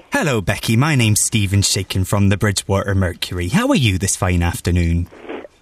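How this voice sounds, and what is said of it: Convincing put-on West Country accent. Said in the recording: “His accent was really good ... you would never know that it wasn't a West Country voice ... the accent is also good”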